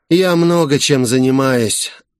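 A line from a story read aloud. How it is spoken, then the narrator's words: Tired. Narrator (Russian): устало сказал он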